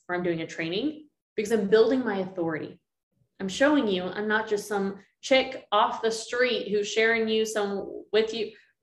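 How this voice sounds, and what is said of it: Texas accent. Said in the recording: “Where's this Texas accent coming through?”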